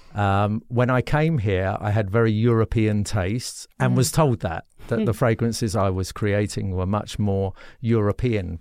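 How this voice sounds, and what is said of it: Non-native English accent. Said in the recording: “you can tell from my accent, I wasn't born here”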